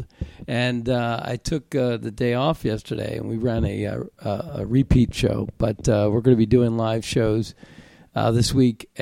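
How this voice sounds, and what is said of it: Slightly congested voice from a cold. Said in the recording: “I have a little bit of a cold,”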